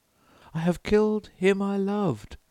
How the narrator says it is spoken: she cried

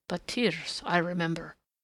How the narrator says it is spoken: the nurse muttered

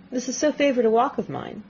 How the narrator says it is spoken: said Miss Tilney

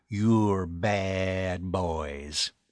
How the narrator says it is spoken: told them with a drawl of the adjective

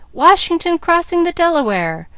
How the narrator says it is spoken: with one voice the audience cried

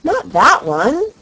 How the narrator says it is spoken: she cried

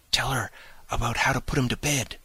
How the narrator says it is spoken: whispered Cyril

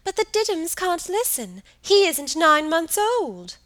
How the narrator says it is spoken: she pleaded

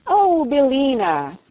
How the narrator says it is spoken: cried Dorothy in a glad voice

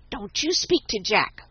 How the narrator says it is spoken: whispered Tommy

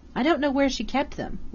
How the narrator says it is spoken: Lydia answered

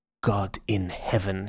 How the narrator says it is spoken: he said quietly

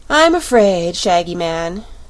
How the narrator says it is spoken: said with a sigh

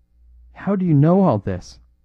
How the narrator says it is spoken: he cried

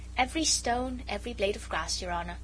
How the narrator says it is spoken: replied the Jew quietly

